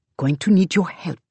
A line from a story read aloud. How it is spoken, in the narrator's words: she says softly